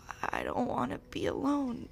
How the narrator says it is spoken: choked out the words

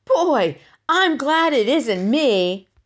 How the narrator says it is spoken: Ramona heard Davy's joyful shout

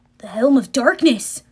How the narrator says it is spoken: gasped

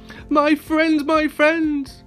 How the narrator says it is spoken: cries the elephant

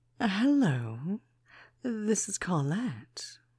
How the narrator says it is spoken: purred the voice on the other end of the line

